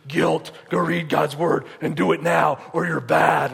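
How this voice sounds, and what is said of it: Demon voice. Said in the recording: “that's my best demon voice I could do”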